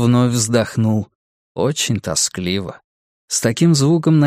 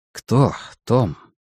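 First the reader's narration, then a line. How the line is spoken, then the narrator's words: Soft question. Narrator (Russian): мягко спросил Стью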